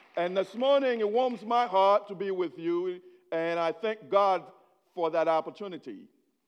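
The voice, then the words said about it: Haitian-accented English. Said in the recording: “I was born in Haiti. So whatever accent you're hearing, it's me trying to speak English”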